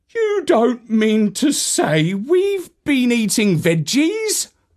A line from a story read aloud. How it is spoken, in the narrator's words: exclaimed, feeling quite disgusted